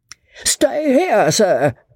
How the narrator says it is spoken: roared out Joss

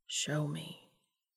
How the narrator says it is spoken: Dean repeated, lowering his voice to a whisper

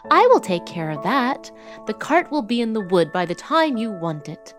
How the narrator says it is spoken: cried Tom

